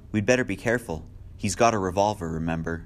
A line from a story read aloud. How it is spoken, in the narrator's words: Philip Lombard, racing down the stairs, chuckled